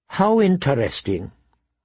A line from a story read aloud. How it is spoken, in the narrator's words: Tyrion Lannister said in a flat tone